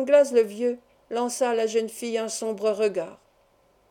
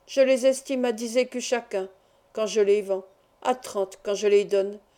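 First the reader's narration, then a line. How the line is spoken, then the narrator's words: Low, muffled voice. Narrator (French): prononça-t-il d'une voix sourde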